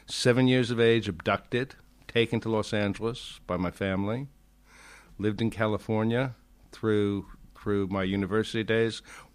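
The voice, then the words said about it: Rounded, hard-to-place standard English accent. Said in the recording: “such a rounded, balanced, charming accent ... It is a lovely accent ... It is a good accent ... I would not have been able to place a location for your accent ... It's basically standard television English”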